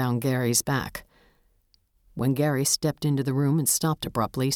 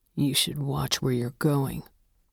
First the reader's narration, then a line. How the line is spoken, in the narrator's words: Gary said under his breath